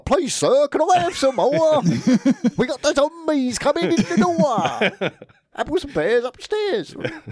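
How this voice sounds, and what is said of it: Exaggerated Cockney English accent. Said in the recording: “What is with that accent? ... Well, it's English. ... She sounded like she was in fucking Oliver.”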